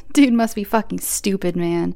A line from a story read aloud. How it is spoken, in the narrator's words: Tyreek chuckled